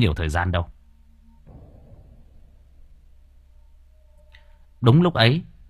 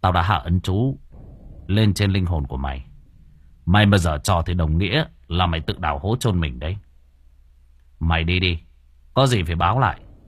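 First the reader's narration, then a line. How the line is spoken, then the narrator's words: Cold. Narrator (Vietnamese): anh Cường chỉ lạnh lùng nói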